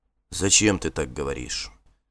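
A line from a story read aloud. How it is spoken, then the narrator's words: Quiet. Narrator (Russian): тихо сказал он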